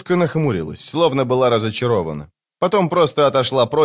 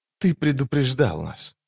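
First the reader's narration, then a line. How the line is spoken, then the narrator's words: Wistful whisper. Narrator (Russian): прошептала она пустому небу, когда на нее нахлынули воспоминания о том утре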